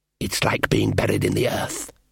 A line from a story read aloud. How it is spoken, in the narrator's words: hissed the elf